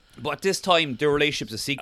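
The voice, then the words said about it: Imitates another person's voice. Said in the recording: “That's not a very good Diana impression, is it? I need to work on that, I think.”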